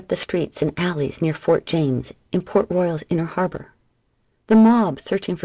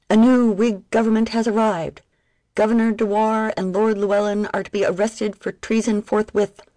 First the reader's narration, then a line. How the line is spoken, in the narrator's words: the town crier bellowed